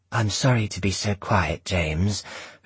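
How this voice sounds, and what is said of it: Low, quiet voice. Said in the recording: “in a low voice.”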